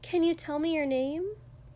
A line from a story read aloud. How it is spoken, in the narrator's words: She said clearly, brightly